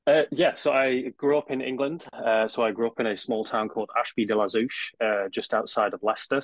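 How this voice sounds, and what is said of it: English accent. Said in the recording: “you have an accent that's different here than Northern California”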